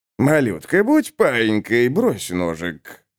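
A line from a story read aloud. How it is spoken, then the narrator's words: Purring softly in ear. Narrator (Russian): мурлыкнул ей на ухо Инджи Прайс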